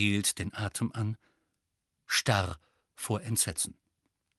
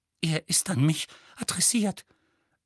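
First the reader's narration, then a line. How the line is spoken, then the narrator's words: Trembling voice. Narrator (German): sagte Petunia mit zitternder Stimme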